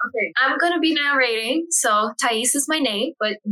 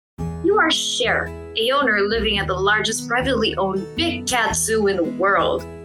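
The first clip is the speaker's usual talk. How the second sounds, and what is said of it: Storyteller narrator voice. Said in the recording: “now you will hear my narrator voice.”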